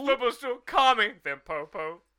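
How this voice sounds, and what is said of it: Imitates a cartoon character's voice. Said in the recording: “a really good fucking impression”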